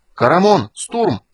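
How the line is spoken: Shouting. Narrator (Russian): закричал Танис

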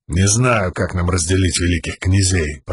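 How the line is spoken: Grumbling. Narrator (Russian): проворчал Далинор

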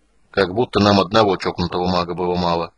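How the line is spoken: Gruff mutter. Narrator (Russian): буркнул Флинт

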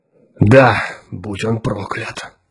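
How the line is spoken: Old man's voice. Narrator (Russian): ответил старческим голосом невидимый человек

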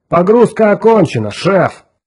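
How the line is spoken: Shout. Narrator (Russian): крикнул Грей Гарсон

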